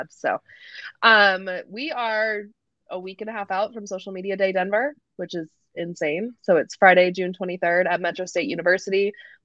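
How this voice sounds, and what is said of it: Hoarse, worn-out voice. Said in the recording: “My voice is still a wreck from having the lovely cold that our whole office had.”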